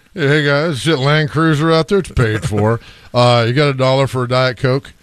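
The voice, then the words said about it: Imitates another person's voice. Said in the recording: “my Bob Mueller impression”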